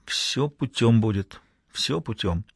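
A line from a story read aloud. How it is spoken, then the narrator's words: Quietly spoken. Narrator (Russian): тихо сказал им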